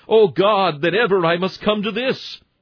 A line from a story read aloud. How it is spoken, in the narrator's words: says ... shrieks